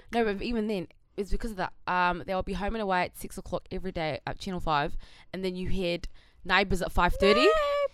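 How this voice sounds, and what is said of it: Convincing put-on Australian accent. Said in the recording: “today I'm from Sydney, Australia ... You're actually really good at it ... I'm in awe of her accent. That's actually sick.”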